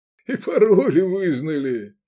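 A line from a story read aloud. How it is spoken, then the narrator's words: Loud laughter. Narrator (Russian): захохотал Кадмар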